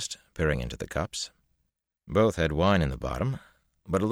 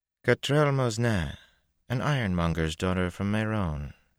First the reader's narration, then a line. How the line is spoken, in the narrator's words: said, just as smoothly as if it were common knowledge